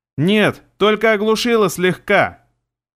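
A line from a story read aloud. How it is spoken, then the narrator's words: Shouting. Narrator (Russian): Прокричала она мне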